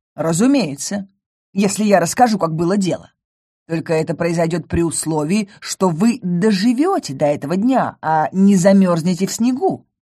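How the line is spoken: Snapping. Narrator (Russian): огрызнулся Матео

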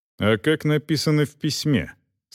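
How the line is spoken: Dry. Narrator (Russian): сухо осведомился кавалер

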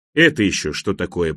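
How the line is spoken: Grumbling. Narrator (Russian): пробурчал он

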